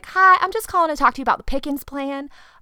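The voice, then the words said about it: Put-on Southern American accent. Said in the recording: “I would put on a Southern accent when I heard one”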